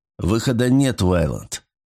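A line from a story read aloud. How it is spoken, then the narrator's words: Grim assurance. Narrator (Russian): мрачно заверил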